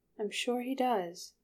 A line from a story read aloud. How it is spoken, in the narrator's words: said soothingly